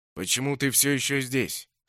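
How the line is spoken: Plain. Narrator (Russian): спросил Броуд

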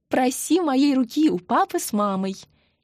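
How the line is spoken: Amused giggle. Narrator (Russian): хихикнула Марина, которую забавляло волнение Андрея

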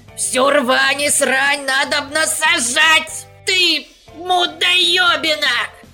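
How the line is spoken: Squeaking. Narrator (Russian): пищал мельник

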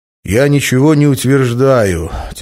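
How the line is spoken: Patient sigh. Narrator (Russian): терпеливо вздохнул медведь

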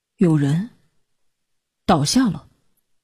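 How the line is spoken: Surprised murmur. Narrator (Chinese): 泫然咦了一声，喃喃地说

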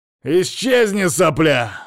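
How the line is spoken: Snarl. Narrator (Russian): рыкнул Шейн

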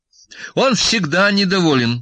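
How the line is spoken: Cheerful. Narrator (Russian): бодро заговорила Настя

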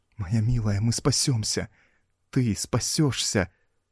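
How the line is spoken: Trembling voice. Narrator (Russian): Дрожащим голосом говорил Смертин

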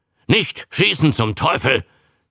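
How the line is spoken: Captain hissing. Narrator (German): zischt der Kapitän

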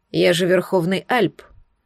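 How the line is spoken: Gloomy reply. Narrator (Russian): мрачно отозвался Десмонд

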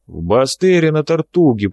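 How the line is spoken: Booming. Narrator (Russian): прогудел Хэн

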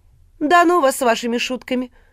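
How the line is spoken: Offended, pouting. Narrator (Russian): обиженно поджала губы Катя

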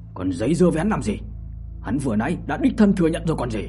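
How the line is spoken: Said angrily. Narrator (Vietnamese): giận dữ mà nói

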